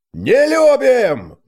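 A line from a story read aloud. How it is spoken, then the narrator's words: Crowd roaring in unison. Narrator (Russian): дружно взревел центр таверны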